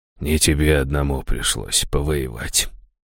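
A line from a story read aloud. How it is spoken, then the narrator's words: Barely audible rustle. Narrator (Russian): чуть слышно прошелестел он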